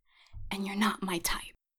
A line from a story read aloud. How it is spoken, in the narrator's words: whispered